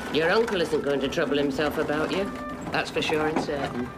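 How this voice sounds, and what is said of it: Well-done Yorkshire accent. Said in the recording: “I love ... Yorkshire accent. ... She does it very well.”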